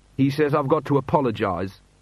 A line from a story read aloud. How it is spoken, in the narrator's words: said Janil sullenly